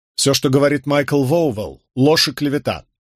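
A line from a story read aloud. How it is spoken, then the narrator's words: Loud. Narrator (Russian): громко произнес я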